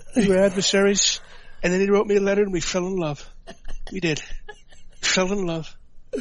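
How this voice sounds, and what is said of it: Tired, stuffed-up-nose imitation of a politician. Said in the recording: “your impression ... listen to the nuance. It is freaking impression. It is so good. I can hear the stuffed up nose and everything ... Like the tired Trump, not the energetic Trump.”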